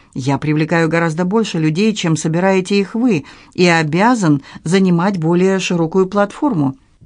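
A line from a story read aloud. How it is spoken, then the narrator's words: Conciliatory. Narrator (Russian): Он добавил примирительным тоном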